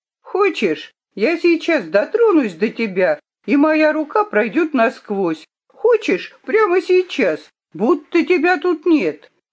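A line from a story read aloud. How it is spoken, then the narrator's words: Laughing. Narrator (Russian): Хетти рассмеялась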